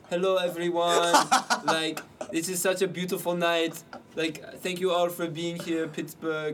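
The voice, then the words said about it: Put-on Swedish accent. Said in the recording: “Like he has this funny like Swedish accent. That's a good Swedish accent.”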